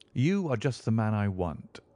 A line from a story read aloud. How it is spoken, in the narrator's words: said he